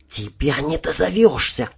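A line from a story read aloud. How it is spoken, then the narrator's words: Displeased female whisper. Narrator (Russian): недовольно шепнула она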